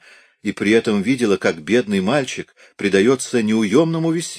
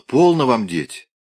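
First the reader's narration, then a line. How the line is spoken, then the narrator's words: Distant, reproachful. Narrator (Russian): сказала то, что должно было прозвучать радостно, а прозвучало отчужденно и даже укоризненно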